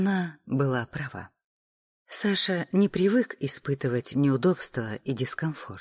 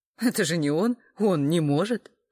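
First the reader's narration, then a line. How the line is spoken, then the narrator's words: Laughing. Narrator (Russian): рассмеялась Тома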